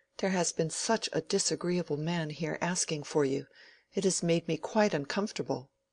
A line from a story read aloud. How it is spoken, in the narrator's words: she said, anxiously